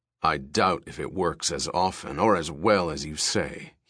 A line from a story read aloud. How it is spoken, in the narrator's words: he said thickly